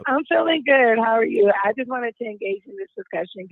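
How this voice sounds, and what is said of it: Hoarse, strained, nearly lost voice. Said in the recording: “I am in the building, horse and all... I lost my voice”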